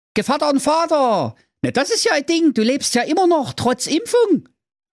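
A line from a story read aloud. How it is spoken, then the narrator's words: Calling out. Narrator (German): rief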